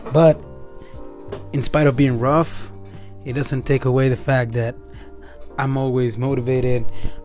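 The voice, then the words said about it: Serious motivational voice. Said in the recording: “this serious voice”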